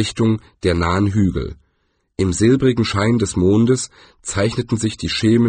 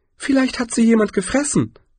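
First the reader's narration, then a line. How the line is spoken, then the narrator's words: Excited interjection. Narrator (German): warf Jaspis aufgeregt ein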